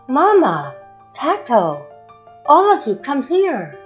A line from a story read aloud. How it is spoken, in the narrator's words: Katusha cried